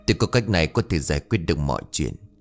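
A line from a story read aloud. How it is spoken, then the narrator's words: Worried whisper. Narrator (Vietnamese): ông thầy Tám cũng có chút lo lắng, thì thầm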